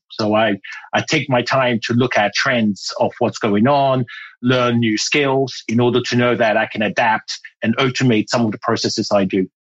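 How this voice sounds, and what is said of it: Mixed British and French accent. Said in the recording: “I'm hearing like British, I'm hearing French. There's other things there ... my accent became British”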